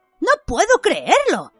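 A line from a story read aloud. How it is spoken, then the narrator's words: Impressed exclamation. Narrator (Spanish): exclamó Ron, impresionado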